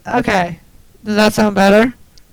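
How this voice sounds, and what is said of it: Cracking, breaking adolescent voice. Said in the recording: “you sound like your balls are in the middle of dropping”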